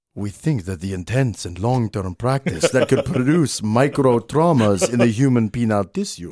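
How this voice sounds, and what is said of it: Put-on Brazilian accent. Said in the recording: “I'm going to try and do my best Brazilian accent. I'm going to sound extra sexy.”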